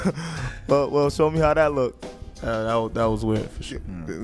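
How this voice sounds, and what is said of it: Usual voice. Nothing is said of it.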